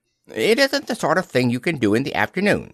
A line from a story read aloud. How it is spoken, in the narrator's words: said Piglet quickly